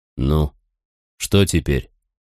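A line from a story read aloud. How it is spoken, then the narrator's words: Hoarse question. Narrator (Russian): сипло спросил барич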